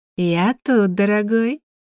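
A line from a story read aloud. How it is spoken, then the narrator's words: Honeyed sing-song voice. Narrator (Russian): пропела медовым голосом ещё одна богиня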